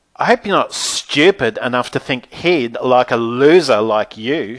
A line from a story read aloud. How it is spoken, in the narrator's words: she howled like a banshee